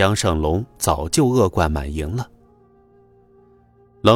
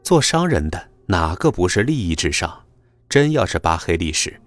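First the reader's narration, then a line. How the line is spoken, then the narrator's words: Scornful sneer. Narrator (Chinese): 他不屑地嗤笑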